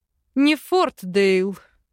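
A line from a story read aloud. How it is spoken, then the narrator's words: Chuckling. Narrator (Russian): хохотнул Арван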